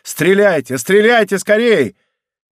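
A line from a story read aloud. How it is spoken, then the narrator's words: Urgent shout. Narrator (Russian): Атос хотел закричать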